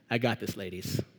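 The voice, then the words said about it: Jesus impression. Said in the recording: “That was a good Jesus impression.”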